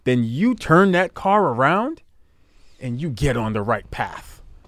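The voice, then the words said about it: Motivational speaker impression. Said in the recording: “This is my best motivational um, speaker per, impersonation.”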